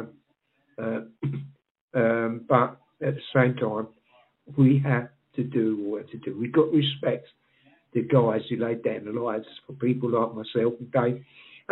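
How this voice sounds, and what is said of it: Rough, strained voice. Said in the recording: “my voice is a bit messed up”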